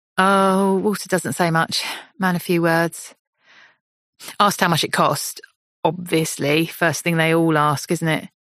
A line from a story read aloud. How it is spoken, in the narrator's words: Alex laughs